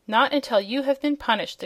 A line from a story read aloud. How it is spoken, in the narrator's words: exclaimed the Boolooroo sternly